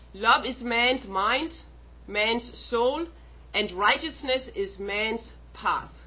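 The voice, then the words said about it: Speaks with a noticeable accent. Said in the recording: “That's my accent. So anytime you don't understand me, please ask.”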